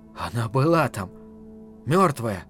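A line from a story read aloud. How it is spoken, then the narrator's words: Whisper. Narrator (Russian): прошептал он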